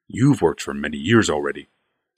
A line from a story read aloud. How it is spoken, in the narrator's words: said Barl calmly